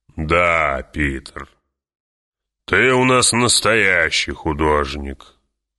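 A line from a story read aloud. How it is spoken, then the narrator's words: Growl. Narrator (Russian): прорычал барон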